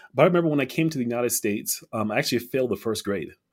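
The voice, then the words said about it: Slight Liberian English accent. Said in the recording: “i'm from liberia monrovia liberia ... I probably still have an accent, ... there, a slight one ... it's English with a, with a different accent”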